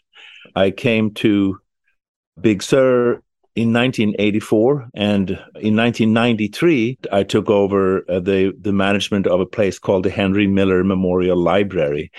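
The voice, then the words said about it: Swedish accent. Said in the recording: “I am originally from Sweden. That explains my accent.”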